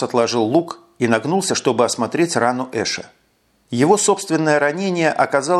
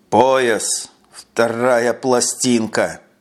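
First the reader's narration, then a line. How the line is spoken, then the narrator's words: Through gritted teeth. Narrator (Russian): Процедил Эш сквозь зубы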